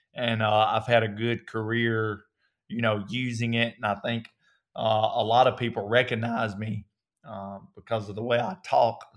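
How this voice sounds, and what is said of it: Southern US accent. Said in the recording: “Obviously, I can hear your accent ... tone down your Southern accent ... my Southern accent is a distinct characteristic”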